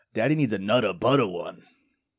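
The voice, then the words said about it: Imitates a company executive's voice. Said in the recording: “my impression of the president / CEO of Nabisco asking for another treat”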